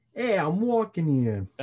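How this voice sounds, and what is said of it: Put-on New York accent. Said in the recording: “another New York thing ... That was pretty good.”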